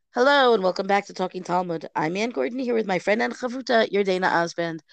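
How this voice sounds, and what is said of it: Stuffy voice from a cold. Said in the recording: “As you hear, I have a bit of a cold. ... I apologize in advance for any variety in my voice that should not be there.”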